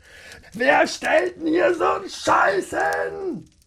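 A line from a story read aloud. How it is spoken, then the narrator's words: Shouted. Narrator (German): schrie er und trat vor Zorn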